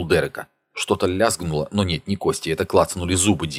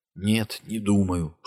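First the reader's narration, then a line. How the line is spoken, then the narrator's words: Whispered reply. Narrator (Russian): шепотом ответил Дин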